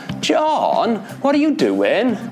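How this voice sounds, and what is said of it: Sing-song South Wales accent. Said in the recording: “in the Welsh accent, quite often you'll hear people saying that it's a very sing-song sort of sounding accent ... vowel sounds are stretched out and stressed, and there's a huge glide from high pitch to low pitch ... the South Wales accent”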